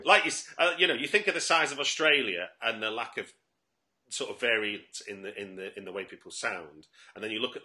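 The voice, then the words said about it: Manchester English accent. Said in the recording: “I don't know whether you can recognise my accent, but I'm actually from Manchester ... there's a little bit of influence of Liverpool in mine”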